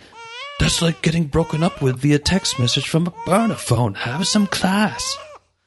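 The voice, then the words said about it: Poor put-on British accent. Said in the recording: “that's my awful British accent”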